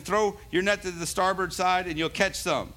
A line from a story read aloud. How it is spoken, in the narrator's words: Jesus shouted to them